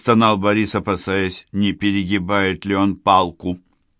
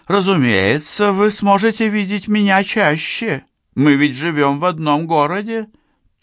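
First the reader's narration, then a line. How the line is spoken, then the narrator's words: Languid cooing. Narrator (Russian): томно проворковала она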